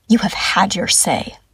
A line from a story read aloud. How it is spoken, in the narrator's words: Ilwing hisses